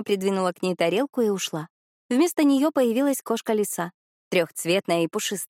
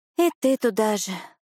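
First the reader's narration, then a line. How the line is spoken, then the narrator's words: Sighing. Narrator (Russian): Маринка вздохнула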